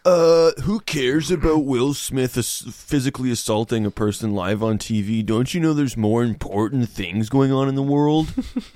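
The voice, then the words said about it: Mocking impression of a dim-witted person. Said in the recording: “my impression of someone admitting how that they have no brain capacity to care about more than one thing at a time”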